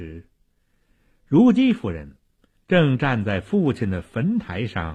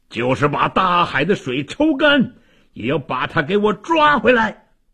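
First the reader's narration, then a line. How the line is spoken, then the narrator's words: Hoarse desperate shout. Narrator (Chinese): 魏王声嘶力竭地喊道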